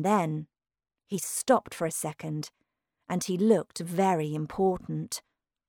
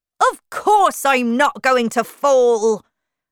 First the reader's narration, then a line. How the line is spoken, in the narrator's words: said Humpty Dumpty angrily